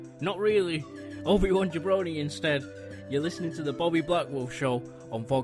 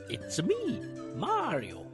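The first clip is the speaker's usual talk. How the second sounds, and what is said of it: Poor Mario voice impression. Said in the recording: “terrible impression ... Charles Martinet ... I tried.”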